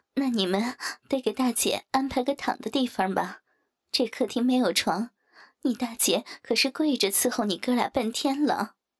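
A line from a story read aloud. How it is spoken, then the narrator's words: Laughing. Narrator (Chinese): 王翠花笑道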